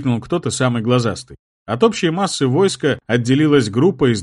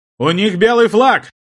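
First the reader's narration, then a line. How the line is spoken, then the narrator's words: Shouting. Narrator (Russian): крикнул тот же голос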